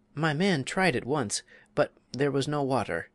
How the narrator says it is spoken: she said sadly

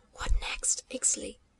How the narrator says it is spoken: he whispered, lips almost touching the face of his young guide

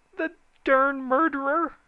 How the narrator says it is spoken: he howled

